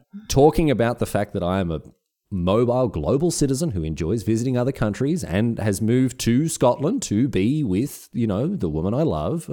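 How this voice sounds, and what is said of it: Thick Australian accent. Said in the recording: “your thick Australian accent”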